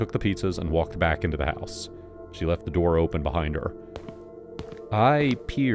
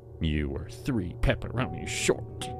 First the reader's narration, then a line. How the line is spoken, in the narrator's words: she muttered